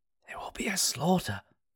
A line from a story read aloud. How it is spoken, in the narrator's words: Danis whispered, his face drawn in sorrow